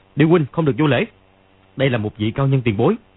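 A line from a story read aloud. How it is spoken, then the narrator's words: Shout. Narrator (Vietnamese): Dương Quá quát lên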